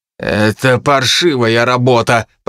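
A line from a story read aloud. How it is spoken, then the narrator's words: Growling, cutting in. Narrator (Russian): прорычал Генри, не дав сестре и слова вставить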